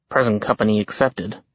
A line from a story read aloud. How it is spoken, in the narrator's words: Jack murmured